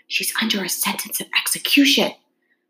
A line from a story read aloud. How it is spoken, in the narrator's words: He looked anxiously, put his mouth closer to her ear, and whispered